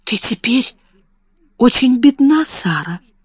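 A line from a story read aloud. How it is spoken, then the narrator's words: Whispered question. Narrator (Russian): шепотом спросила Лотти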